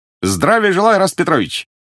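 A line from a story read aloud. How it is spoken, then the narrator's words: Cheerful greeting. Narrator (Russian): весело приветствовал он привычного посетителя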